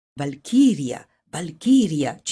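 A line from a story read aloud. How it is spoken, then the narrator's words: Repeated chant. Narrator (Italian): citavano ad ogni passo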